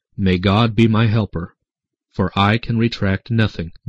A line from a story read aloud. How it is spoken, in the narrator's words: the doctor himself said calmly